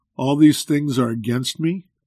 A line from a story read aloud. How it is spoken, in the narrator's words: exclaim